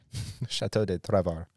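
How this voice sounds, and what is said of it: Terrible put-on French accent. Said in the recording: “that's my French. ... It's a terrible French accent. ... It's like you were French and Hispanic at the same time.”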